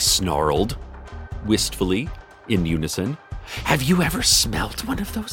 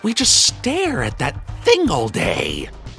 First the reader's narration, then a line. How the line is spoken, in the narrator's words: they sneered, lovingly